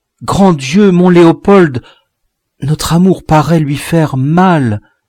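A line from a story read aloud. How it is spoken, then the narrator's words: Exclaimed. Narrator (French): Marie s'écria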